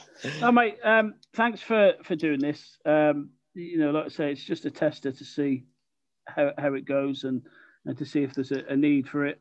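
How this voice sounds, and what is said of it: Monotone Birmingham English accent. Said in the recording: “my monotone Brummie accent”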